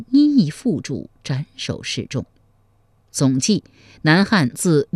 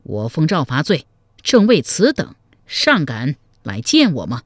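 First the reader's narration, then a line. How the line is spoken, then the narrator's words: Enraged. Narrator (Chinese): 潘美大怒道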